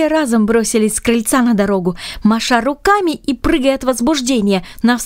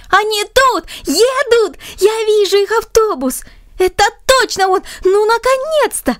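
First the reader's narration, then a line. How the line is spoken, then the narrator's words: Excited, joyful child shouting. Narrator (Russian): один из звонких детских голосов радостно и взволнованно прокричал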